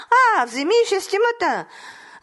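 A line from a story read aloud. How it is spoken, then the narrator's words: Laughing. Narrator (Bulgarian): Засмял се царят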